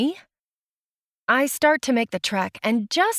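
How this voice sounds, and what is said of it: Usual voice. Nothing is said of it.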